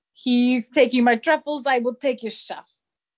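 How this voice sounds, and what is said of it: Attempted French accent. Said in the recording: “I didn't try to do a French accent there”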